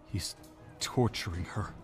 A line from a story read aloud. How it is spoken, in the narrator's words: he said weakly